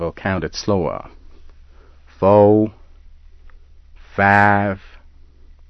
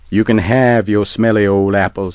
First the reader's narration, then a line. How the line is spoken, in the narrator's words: he said